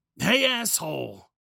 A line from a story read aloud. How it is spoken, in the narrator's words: angrily